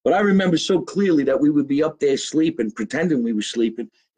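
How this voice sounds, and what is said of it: New Jersey accent. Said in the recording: “this accent that we have here in New Jersey”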